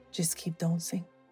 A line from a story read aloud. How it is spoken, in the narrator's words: murmured Jacques